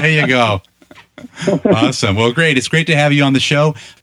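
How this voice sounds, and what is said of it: Boston accent. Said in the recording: “Obviously, I'm not from Ireland. ... You can tell from the accent. ... it's purebred Boston.”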